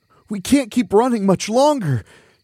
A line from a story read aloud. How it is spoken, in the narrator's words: Chunker groaned